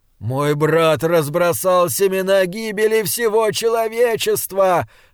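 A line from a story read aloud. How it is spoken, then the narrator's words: Moaning. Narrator (Russian): стонал Джошуа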